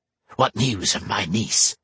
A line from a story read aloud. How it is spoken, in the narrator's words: she hissed